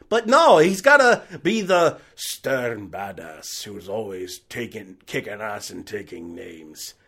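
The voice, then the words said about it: Bad Liam Neeson impression. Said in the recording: “That was a terrible Liam Neeson impression.”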